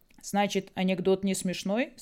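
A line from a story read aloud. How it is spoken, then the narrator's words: Plain. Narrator (Russian): спросил он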